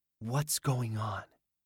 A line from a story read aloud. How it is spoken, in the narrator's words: he whispered